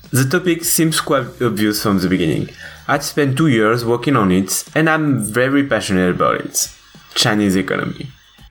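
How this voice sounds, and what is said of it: French accent in English. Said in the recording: “I'm French, so sorry for the accent, but a friend of mine told me it was cute.”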